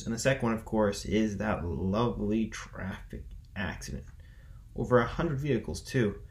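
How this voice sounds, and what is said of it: Sarcastic tone. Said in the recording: “I'm being sarcastic”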